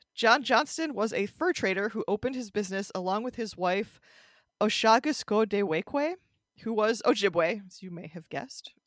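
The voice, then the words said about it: Heavy Midwestern American accent. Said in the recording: “heavy Midwestern American accent ... I am an American Midwesterner, so most of what I say is going to have that accent.”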